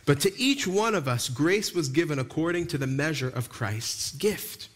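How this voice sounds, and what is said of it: Long Island accent. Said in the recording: “I went a little Long Island ... I've tried to knock the Long Island out of me, but every now and then my accent comes back.”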